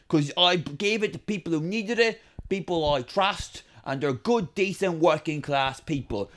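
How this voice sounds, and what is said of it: Put-on accent, fluctuating between regions. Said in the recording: “your accent is fluctuating rather extremely. I'm not sure what region you're from”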